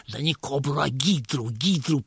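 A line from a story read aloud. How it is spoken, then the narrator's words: Whispering. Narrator (Russian): прошептал Хуриев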